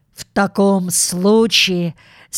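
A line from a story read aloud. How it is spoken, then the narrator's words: Angry, stalling for time. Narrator (Russian): сердито проговорил, чтобы выгадать время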